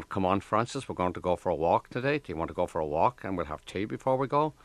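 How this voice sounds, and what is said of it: Imitated Northern Ireland accent. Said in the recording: “That Northern Ireland accent ... That was the kind of accent, completely different from the Limerick accent.”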